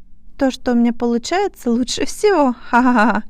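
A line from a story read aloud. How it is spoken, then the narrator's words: Laughing. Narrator (Russian): Рассмеялась Марла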